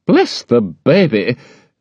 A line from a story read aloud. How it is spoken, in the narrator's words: exclaimed Miss Betsy